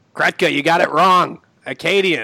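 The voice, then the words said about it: Imitates another person's voice. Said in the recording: “my impression of the Milton family ... I doubt it's very accurate”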